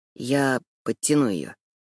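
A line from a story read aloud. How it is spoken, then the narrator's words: Unexpectedly quiet. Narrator (Russian): неожиданно тихо произносит Уильям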